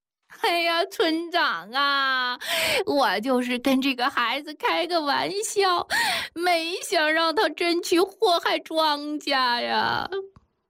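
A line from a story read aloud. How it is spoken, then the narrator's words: Crying woman speaking. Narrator (Chinese): 孙三媳妇儿 哭着 一边哭着，一边说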